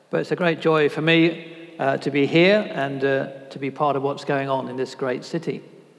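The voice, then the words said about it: British English accent. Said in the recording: “you'll hear from my accent, I'm not from around these parts ... the same strange British accent”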